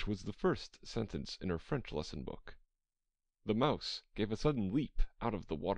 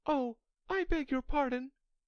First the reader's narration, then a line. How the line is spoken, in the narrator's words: cried Alice hastily, afraid that she had hurt the poor animal's feelings